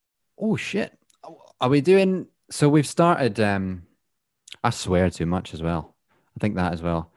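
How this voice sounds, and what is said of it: Scottish accent. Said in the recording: “being Scottish ... a Scottish accent”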